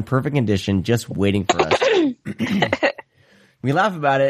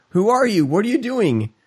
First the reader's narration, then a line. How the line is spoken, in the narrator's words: I finally exclaim